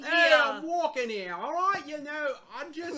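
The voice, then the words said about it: British speaker attempting New York accent. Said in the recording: “can't do a New York accent. ... Now you sound like a British person trying to do an”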